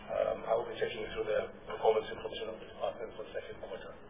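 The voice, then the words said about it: Voice strained by a cold. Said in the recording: “I do have a slight call, so my voice might break from time to time”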